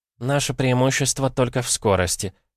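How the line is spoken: Quiet speech. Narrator (Russian): тихо проговорила Тильда

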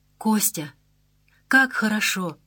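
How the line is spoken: Whispering. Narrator (Russian): шептала Маша

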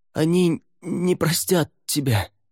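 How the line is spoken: Hoarse, hurrying. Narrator (Russian): прохрипел Лаверн, торопливо шагая следом

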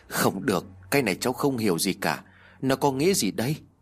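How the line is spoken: Sighing woman. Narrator (Vietnamese): Lý cô thở dài nói

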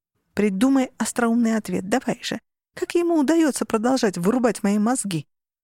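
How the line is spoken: Laughing. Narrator (Russian): Он рассмеялся

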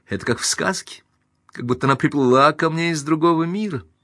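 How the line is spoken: Cheerful speech. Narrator (Russian): она весело сморщила носик и сказала

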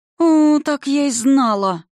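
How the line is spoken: Moaned. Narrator (Russian): простонала Арика

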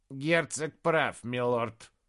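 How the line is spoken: Creaky voice. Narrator (Russian): проскрипел Прайрот

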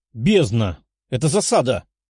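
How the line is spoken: Exclaimed, armored man. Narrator (Russian): воскликнул человек, закованный в металлические доспехи

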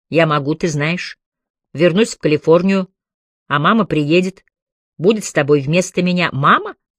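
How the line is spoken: Muffled laugh. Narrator (Russian): Чайна приглушенно хохотнула

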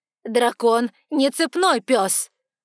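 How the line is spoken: Sudden frowning shout. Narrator (Russian): вдруг крикнула она, нахмурившись

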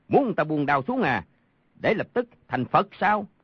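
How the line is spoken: Guffawing shout. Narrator (Vietnamese): Đoàn Thiên Đức hô hố cười rộ quát

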